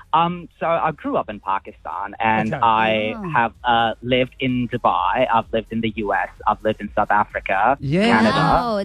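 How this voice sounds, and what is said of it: Mixed, hard-to-place international accent. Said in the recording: “I think it was just his accent. She couldn't understand. ... are you American or? ... I've got a mixed up accent ... You can hear them all at times ... I was just trying to figure out where your accent was.”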